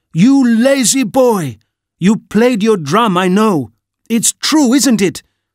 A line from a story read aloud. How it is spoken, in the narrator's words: his angry aunt shouts